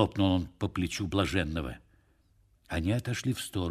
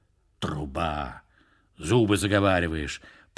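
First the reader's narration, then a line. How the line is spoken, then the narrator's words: Grumble. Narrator (Russian): пробурчал он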